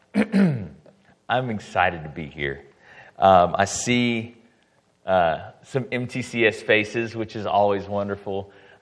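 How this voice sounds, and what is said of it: Hoarse, strained voice. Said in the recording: “I will clear my throat a lot because I lost my voice halfway through camp ... my voice is still not quite there”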